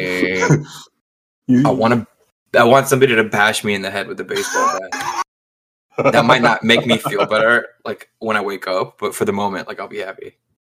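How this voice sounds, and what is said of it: Flat, monotone, worn-out voice. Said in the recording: “My man's a little hungover, if you can't tell by his voice. ... Sorry for the monotone.”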